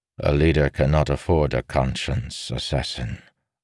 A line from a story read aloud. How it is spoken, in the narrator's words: Avan said quietly